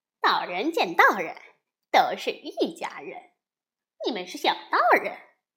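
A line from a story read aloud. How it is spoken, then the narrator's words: Laughing. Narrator (Chinese): 悟空笑着说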